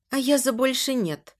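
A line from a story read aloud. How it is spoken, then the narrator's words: Quiet. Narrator (Russian): говорю тихо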